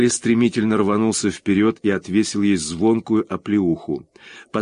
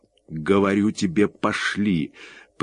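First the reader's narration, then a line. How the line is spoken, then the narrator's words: Through gritted teeth. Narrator (Russian): процедил он сквозь зубы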